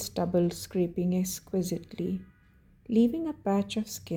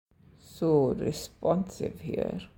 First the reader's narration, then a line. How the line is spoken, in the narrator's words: Ilya muttered, against his skin, his voice thick